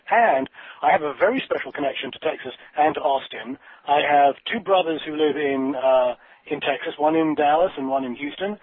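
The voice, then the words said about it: English accent. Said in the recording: “bearing in mind my accent, my parents were, in fact, American, but I was born and raised in England”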